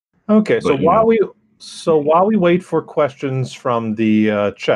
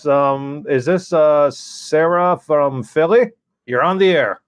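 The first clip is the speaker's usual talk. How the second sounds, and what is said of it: Exaggerated old-timey radio announcer voice. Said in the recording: “It was a bad attempt at a bad radio voice... Yeah, the old-timey radio.”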